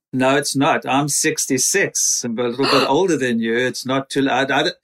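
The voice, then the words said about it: South African accent. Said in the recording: “the accent is from where? ... South Africa.”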